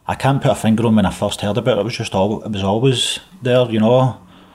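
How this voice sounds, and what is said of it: Strong Glasgow Scottish accent. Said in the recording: “is originally from Glasgow, and as you can hear, he's in no danger of losing his accent.”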